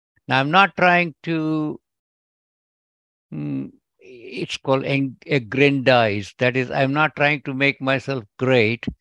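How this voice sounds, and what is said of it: Indian English accent. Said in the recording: “my accent might tell, but I'm originally from India”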